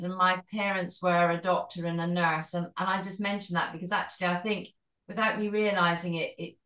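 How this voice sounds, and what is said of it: Scottish accent. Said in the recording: “Maybe you can tell from my accent, but I'm Scottish.”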